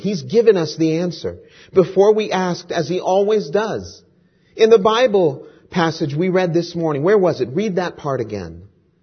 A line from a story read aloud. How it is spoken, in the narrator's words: Betsy then exclaimed excitedly